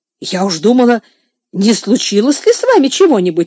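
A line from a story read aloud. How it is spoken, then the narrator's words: Exclamation. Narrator (Russian): воскликнула мисс Офелия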